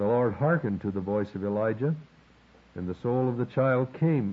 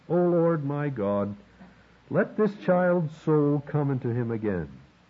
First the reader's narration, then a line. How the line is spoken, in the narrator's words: cried to the Lord